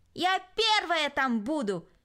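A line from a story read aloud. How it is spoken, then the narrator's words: Shouted. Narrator (Russian): крикнула Кристина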